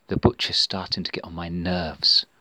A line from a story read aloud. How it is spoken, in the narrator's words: whispered Samantha to her friends